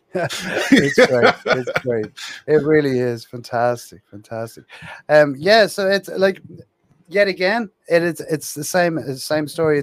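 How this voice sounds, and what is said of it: Irish accent. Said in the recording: “I'm over here in Ireland ... I'm in Dublin in Ireland ... that's why you have this magnificent accent.”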